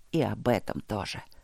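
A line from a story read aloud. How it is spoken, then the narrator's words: Muttered. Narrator (Russian): пробормотал он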